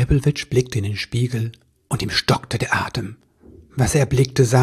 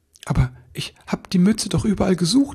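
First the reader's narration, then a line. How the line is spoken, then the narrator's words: Stammering. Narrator (German): stammelte er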